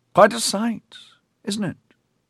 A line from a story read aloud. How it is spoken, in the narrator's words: Grandmaster Finnitan said gently